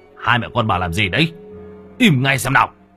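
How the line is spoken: Shout. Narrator (Vietnamese): tiếng ông Đông quát lên

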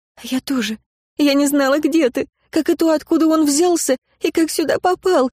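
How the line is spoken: Muffled sobbing. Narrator (Russian): рыдала я, зарываясь лицом в его футболку

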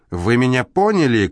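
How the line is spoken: Shout. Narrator (Russian): крикнул он

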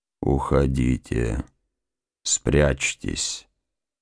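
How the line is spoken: Low voice. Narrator (Russian): сказал он своим низким голосом

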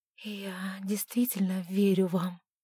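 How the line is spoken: Whispered. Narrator (Russian): прошептала Александра

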